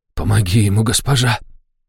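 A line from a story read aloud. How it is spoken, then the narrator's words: Hoarse tearful whisper. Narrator (Russian): хрипло прошептал Ришнис, и его глаза увлажнились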